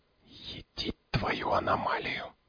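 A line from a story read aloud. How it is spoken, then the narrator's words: Astonished whisper. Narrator (Russian): прошептал пригрышня изумленно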